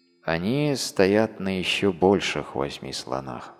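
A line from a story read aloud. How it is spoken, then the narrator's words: Plain. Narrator (Russian): ответил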